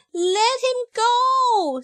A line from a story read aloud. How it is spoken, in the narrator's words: screamed Ellie